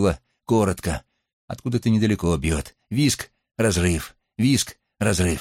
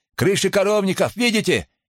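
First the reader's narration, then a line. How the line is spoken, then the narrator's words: Deafened shouting. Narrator (Russian): кричал Третьяков, оглушенный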